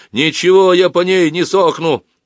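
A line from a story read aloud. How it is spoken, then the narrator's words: Fierce shout. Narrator (Russian): закричал свирепо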